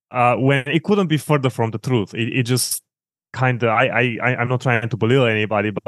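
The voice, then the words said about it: Eastern European accent. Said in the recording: “you have an Eastern European accent”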